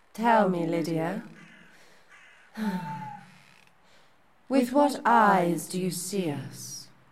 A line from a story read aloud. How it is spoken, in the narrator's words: Dawn breathed